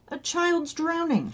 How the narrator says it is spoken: shouted Johnny

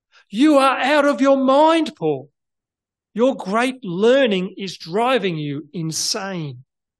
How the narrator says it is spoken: he shouted

